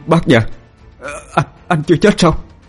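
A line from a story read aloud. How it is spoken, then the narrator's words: Stammering. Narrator (Vietnamese): Hưng lắp bắp nói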